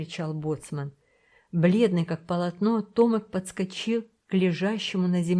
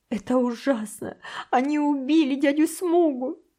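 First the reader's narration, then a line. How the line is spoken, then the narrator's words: Boy sobbing. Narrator (Russian): зарыдал мальчик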